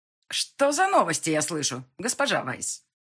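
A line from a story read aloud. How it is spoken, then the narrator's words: Sharp voice. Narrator (Russian): произнесла резким голосом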